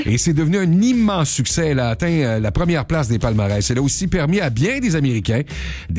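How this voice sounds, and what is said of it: Usual voice. Nothing is said of it.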